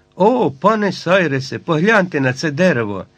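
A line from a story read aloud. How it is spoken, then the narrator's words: Joyful exclamation. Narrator (Ukrainian): Герберт радісно вигукнув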